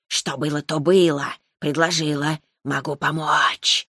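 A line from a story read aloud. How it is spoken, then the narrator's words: Hissing. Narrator (Russian): прошипела она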